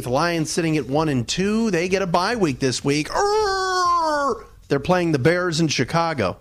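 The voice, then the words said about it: Jim Rome impersonation. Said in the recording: “a little Jim Rome impersonation”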